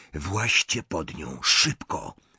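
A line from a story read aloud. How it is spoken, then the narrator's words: Whispered. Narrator (Polish): szepnął Harry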